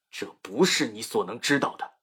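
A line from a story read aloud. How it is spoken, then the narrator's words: Angry. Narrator (Chinese): 尊卢沙发怒说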